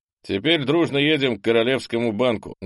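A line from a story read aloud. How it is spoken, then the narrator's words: Loud announcement. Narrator (Russian): громко объявил попаданец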